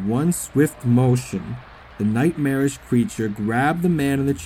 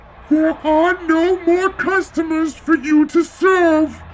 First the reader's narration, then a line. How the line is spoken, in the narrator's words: Professor Egghead screeched